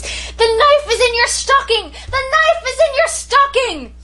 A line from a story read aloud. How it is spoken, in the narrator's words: shrieked at the top of my voice